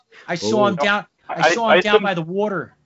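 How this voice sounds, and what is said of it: Put-on Philadelphia accent. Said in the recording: “What is this accent? ... she's from Philly ... It's sort of Bostonian”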